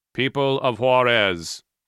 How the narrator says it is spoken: a pre-recorded voice boomed in Spanish

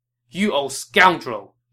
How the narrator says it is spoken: he barked back at Tao Qian

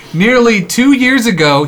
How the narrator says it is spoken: he pleaded

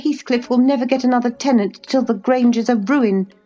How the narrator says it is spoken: she answered sharply

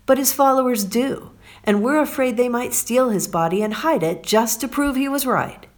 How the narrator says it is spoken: cried the religious leaders

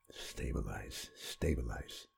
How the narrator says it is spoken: Seibert whispered

